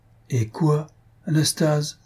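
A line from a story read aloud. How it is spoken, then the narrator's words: Timid. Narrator (French): reprit timidement Faustine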